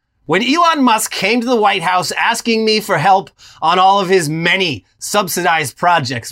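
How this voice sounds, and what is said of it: Imitates another person's voice. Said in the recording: “just needs to do the Trump impression ... I go for more of the feeling behind the words than the actual impersonation.”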